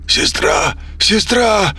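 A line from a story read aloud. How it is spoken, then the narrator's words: Desperate shout. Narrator (Russian): крикнул он, когда уже не мог больше терпеть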